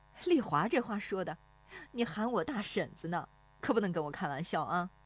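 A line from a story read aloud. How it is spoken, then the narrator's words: Laughing woman. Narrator (Chinese): 那妇女跟着笑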